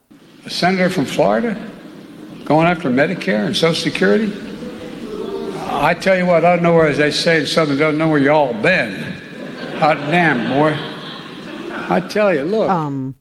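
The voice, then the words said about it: Poor put-on Southern accent. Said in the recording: “the Southern accent ... Joe Biden's Southern accent ... That was horrible.”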